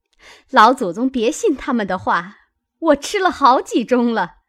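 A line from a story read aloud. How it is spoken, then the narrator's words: Hurried, laughing. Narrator (Chinese): 凤姐儿忙也笑说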